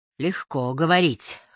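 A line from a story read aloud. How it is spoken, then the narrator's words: Wry snort. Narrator (Russian): хмыкнул Селиван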